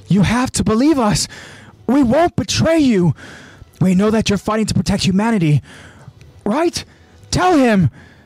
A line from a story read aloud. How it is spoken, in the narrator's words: Marlo continues pleading